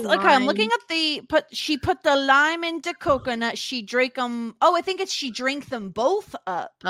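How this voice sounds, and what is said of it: Usual voice. Nothing is said of it.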